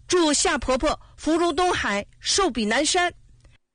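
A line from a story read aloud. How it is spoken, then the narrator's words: Loud. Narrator (Chinese): 大声说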